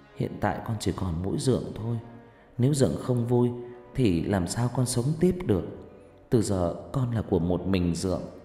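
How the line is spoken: Soft gentle, muffled. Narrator (Vietnamese): Vân áp mặt vào vai lão, nhỏ nhẹ

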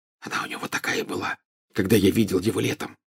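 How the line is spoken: Whisper in ear. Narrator (Russian): зашептал Гарри на ухо Гермионе

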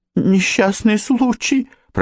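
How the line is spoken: Timid babble. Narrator (Russian): пролепетала Джанет

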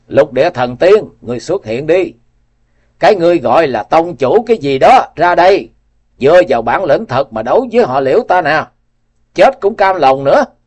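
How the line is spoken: Roaring. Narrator (Vietnamese): gầm lên

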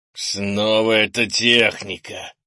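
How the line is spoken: Growl. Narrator (Russian): зарычал

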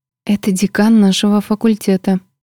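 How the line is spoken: Whispering. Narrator (Russian): прошептала Сельма

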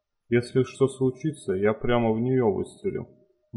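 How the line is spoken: Grim. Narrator (Russian): мрачно сказал он

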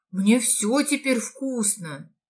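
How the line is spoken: Merchant exclaiming. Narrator (Russian): воскликнул купец

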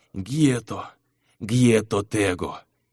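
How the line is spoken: Barely audible whisper. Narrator (Russian): Едва слышно прошептал Шейр

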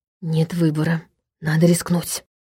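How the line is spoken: Whispered remark. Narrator (Russian): шепотом заметил Даня

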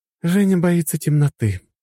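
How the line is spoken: Sighing. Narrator (Russian): вздохнула Маша

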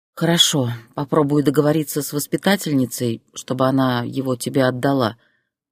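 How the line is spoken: Sighing. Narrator (Russian): вздохнула Зоя

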